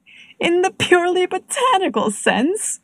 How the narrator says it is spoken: Robson, Deering's cousin, repeated, laughing heartily

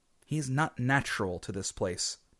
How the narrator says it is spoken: some said

